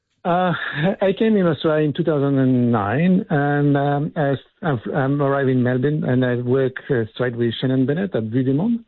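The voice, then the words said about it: French accent in English. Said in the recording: “you don't have the strongest Australian accent ... Occasionally the French breaks through.”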